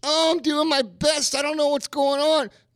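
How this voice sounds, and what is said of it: Whiny little voice. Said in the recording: “in a whiny little voice,”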